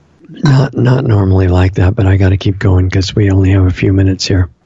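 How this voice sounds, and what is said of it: Hoarse, tired voice. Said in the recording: “hoarse voice today. My voice is exhausted. I've been talking too much.”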